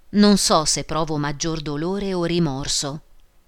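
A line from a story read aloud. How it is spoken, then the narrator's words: Deep voice. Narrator (Italian): Disse con voce profonda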